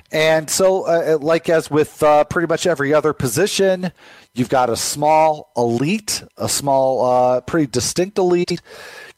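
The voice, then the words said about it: Sick, flu-affected voice. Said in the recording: “apologize for my voice, by the way. I'm fighting the flu here. I think the flu is starting to win a little bit.”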